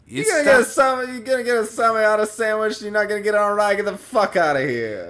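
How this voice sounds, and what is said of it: Exaggerated New York accent. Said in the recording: “that's how we say it in New York ... doing this ridiculous voice”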